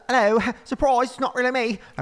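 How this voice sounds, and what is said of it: Attempted New Zealand accent. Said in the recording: “It's supposed to be New Zealand.”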